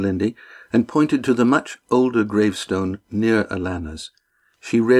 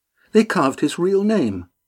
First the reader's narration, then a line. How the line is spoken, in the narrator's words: Estrella exclaimed